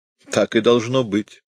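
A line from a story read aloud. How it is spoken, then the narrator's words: Said, then barking laugh. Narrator (Russian): сказал хирург и засмеялся, точь-в-точь короткий, резкий лай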